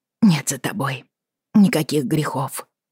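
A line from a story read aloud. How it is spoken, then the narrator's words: Trembling whisper. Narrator (Russian): дрогнув, прошептала она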